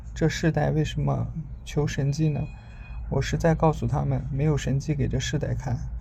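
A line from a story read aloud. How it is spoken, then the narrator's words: Deep sigh. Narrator (Chinese): 耶稣心里深深地叹息说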